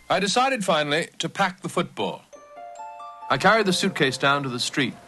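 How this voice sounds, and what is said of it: Old Yankee aristocratic accent. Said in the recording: “old Yankee aristocratic accent ... It seemed affected”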